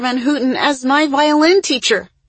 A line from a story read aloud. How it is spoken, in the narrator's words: exclaimed Issa